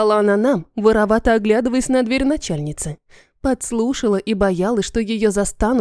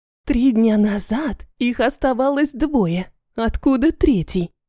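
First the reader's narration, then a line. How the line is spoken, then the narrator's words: Whispered question. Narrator (Russian): Также шепотом поинтересовалась одна из сотрудниц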